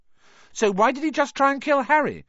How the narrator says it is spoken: cried Hermione

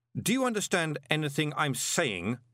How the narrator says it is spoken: shouted Moist

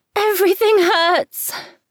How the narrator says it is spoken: Freckles cries out between breaths

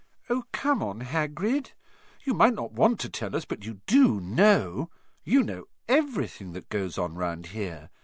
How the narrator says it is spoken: said Hermione in a warm, flattering voice

